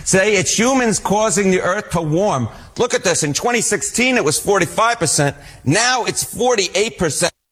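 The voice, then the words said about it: Exaggerated New York accent. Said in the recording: “This is an all New York accent hit ... You're leaning into that. ... Now I really am leaning into the, yes, New York accent.”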